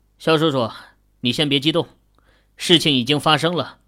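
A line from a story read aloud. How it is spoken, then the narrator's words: Soothing persuasion. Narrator (Chinese): 孟芳则是开口劝道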